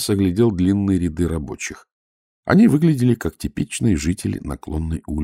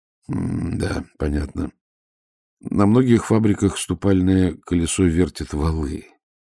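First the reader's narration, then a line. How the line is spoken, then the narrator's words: Gentle remark. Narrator (Russian): мягко заметил Ваймс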